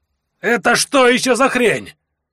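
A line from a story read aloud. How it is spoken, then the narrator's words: Howling outburst. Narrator (Russian): Взвыл первый из магов по имени Аджарт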